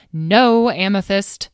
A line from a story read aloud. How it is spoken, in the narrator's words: snapped Carnelian